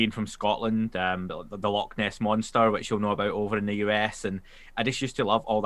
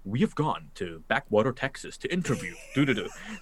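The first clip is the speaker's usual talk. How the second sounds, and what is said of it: Put-on American accent. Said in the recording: “your American accent is great, man. ... it's better than my Scottish one.”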